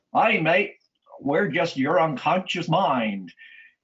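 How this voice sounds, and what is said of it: Heavy Australian accent. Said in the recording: “in this heavy Australian accent”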